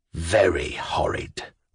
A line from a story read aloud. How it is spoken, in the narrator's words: whispered the pockmarked man, looking really angry at last